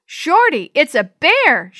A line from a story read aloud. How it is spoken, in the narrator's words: she yelled